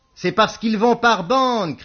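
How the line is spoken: Shouting. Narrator (French): cria Beaumasque

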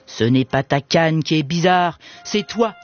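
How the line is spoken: Sneering. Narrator (French): ricana Compère Gredin

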